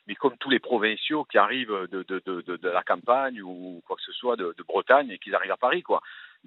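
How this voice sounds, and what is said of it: Regional French accent. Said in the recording (French): “je me suis rendu compte de mon accent ... mais vous avez un accent, c'est incroyable ... je ne savais pas que j'avais un accent parce que tout le monde parlait comme moi”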